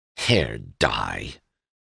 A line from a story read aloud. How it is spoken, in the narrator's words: said Doremus bitterly